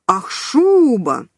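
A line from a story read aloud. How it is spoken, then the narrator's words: Roared. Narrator (Russian): взревел Левка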